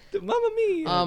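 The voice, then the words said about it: Mario impression, Italian cartoon voice. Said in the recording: “See, now that's a Mario impression.”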